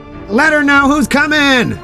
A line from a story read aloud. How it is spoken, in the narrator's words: From below, Green Arrow shouted